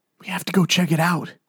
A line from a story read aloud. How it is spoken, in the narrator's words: Jesse whispered